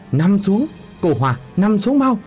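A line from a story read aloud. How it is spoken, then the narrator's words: Urgent cry. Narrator (Vietnamese): Chú Tiền kêu lên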